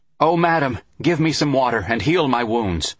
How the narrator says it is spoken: called out

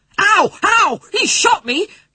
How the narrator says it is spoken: Patrick screamed

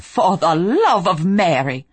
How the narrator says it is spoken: Rowena snapped

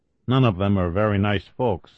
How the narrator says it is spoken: Allen said evenly

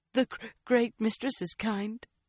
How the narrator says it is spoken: Leandrin agreed, around hiccups and occasional sobs that she could not stifle

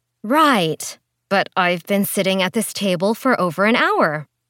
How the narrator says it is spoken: Priscilla said in an overly saccharine voice

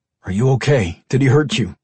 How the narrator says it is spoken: Brian asked, in a harsh, clipped tone

